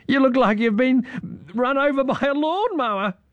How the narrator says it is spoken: giggled Irene

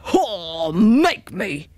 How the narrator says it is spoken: he roared

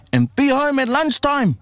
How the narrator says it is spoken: she yells as we disappear

